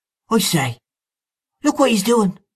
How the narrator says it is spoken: I heard Mahony exclaim

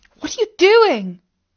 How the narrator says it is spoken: cried out Katie in dismay

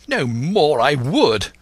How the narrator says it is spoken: cried the squire

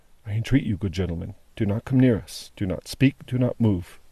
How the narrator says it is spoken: only said, in a low voice

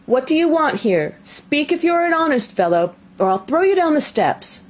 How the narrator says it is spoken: The boy cried a second time

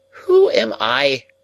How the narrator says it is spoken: cried Miss Havisham, flashing into wrath so suddenly

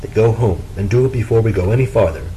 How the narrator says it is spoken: said Frederick

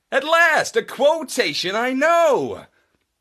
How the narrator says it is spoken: exclaimed Marlowe brightly

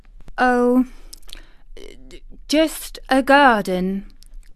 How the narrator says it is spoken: she stammered

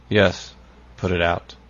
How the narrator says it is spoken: said, at last, in a hollow tone

